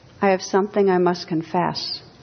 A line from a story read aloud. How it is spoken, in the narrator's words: said weakly